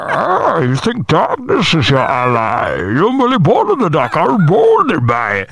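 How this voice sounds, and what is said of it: Good Bane impression. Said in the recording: “That was a good Bane impression”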